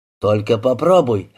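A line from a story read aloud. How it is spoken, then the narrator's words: Barking. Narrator (Russian): рявкнул Фетерик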